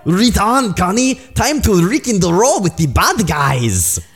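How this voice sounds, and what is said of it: Bad put-on Russian accent. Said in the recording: “Russians, am I right? ... my inability to do foreign accents is normally a hindrance ... It does not correspond to any accent you will ever encounter in the real world.”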